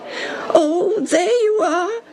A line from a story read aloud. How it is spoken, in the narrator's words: poor Tim whined